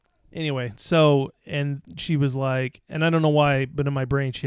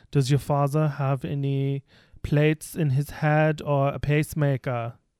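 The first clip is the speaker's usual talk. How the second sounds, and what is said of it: Put-on German or Austrian accent. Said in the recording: “she has like a German accent. And she was, or like Austrian or something.”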